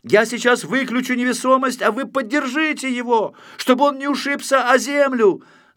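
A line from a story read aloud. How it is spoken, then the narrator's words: Distant shout. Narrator (Russian): закричал Знайка издали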